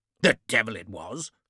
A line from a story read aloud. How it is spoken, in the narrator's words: Lord Marston growled